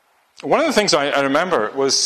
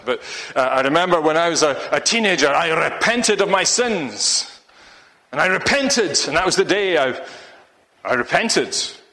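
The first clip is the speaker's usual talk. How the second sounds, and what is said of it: Bad imitated Russian accent. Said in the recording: “my bad Russian accent”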